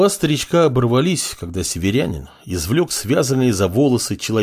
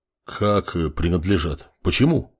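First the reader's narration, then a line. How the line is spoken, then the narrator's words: Village elder's surprised mumble. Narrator (Russian): удивленно пробормотал староста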